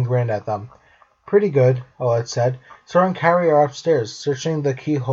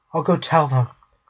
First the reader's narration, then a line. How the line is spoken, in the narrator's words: she whispered